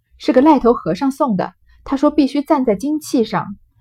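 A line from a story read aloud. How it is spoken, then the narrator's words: Laughing baby. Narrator (Chinese): 婴儿笑道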